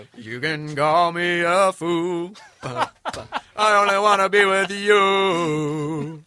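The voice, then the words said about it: Sung falsetto imitation of a singer. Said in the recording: “You sounded just like him. ... singing falsetto Hootie ... That's like my only impression”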